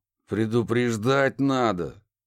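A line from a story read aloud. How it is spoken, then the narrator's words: Grimacing, through gritted teeth. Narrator (Russian): скривившись, процедил Барри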